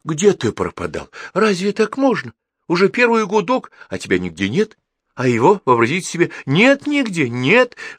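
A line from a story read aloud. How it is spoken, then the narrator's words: Agitated talking. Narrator (Russian): взволнованно говорила тетя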